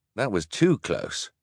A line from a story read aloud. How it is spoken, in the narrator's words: Klaus replied